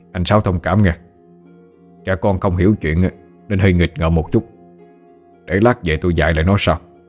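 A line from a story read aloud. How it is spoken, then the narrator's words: Feigned sternness, hidden smile. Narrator (Vietnamese): Ông Mười cố làm ra vẻ nghiêm nghị, giấu đi nụ cười nở trên môi, rồi nói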